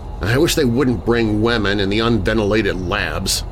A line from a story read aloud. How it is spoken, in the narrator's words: I grumbled